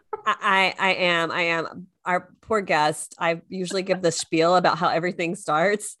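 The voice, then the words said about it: Congested, husky, sped-up speech. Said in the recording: “Do you like my sexy voice? I've had a little head cold. ... Your sexy voice, and you're talking like you're on a speed play on the record.”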